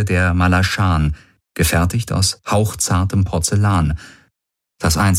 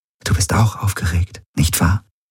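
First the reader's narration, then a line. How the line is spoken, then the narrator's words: Whispering. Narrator (German): flüsterte sie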